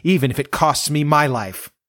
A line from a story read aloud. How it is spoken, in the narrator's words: cried